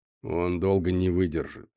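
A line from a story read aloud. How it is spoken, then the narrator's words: Gloomy. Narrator (Russian): мрачно сказал канадец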